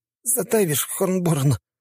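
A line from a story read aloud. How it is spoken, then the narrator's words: Strained groan. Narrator (Russian): с трудом простонал я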